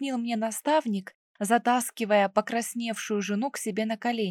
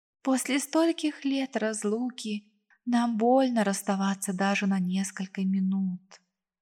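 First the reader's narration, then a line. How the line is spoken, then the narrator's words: Sighing. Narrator (Russian): вздохнула Ананель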